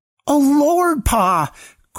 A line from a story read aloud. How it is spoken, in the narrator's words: cried Samson